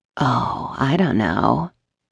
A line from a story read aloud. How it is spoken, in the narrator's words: purred